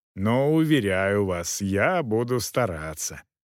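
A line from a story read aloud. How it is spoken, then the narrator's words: Mocking promise. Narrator (Russian): пообещал кавалер насмешливо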